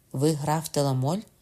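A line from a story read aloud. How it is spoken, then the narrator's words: Plain. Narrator (Ukrainian): сказав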